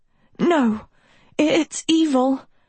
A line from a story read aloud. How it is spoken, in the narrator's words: Agatha wheezed